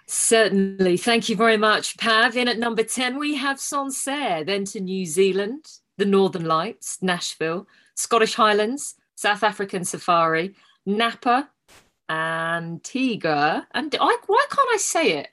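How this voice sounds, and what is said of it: Mock radio presenter voice. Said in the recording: “in your best radio voice”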